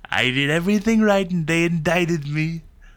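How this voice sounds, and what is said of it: Imitates another person's voice. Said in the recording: “your impression was good? ... It was a good impression. That was a strong Trump.”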